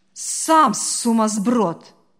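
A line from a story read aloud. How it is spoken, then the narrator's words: Barking snap. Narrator (Russian): рявкнула та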